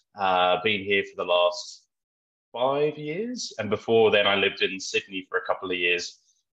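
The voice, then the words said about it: British accent, slight Australian twang. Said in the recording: “I'm from the UK originally, which I think you might be able to tell from my accent. Although some people say I still have a bit of an Australian twang occasionally with certain words.”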